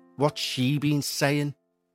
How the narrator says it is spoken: She muttered through gritted teeth

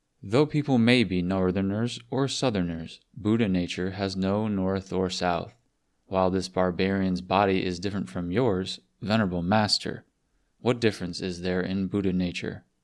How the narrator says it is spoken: Hunying replied calmly and confidently

